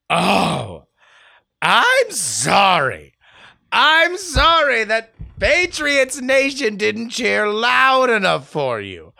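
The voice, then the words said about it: Angry mock-indignant reading voice. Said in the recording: “in my angry email voice”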